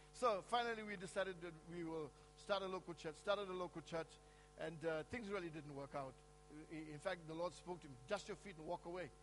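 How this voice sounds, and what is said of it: Noticeable non-American accent. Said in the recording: “I haven't actually lost my accent. You know, as you hear it, I haven't actually lost my accent.”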